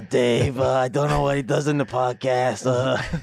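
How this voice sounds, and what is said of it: Imitates another person's voice, poorly. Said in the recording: “That wasn't a very good Josh accent. ... That wasn't very good either.”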